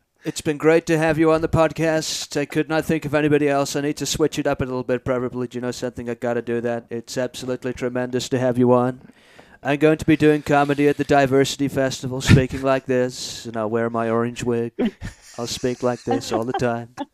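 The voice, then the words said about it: Impersonated voice. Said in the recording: “We always close the show off with ... doing some impersonation.”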